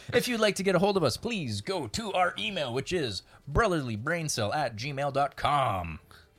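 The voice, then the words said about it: Announcer voice. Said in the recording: “Very good announcer voice that you had there.”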